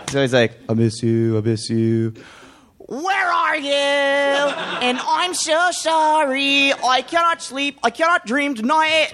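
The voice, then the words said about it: Imitates a band singer's voice. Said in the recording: “this impersonation”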